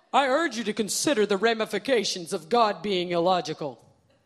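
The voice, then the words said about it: Funny imitation voice. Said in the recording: “I have to do a funny voice”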